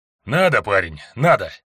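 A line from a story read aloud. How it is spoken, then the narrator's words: Tired reply. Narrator (Russian): устало ответил Лео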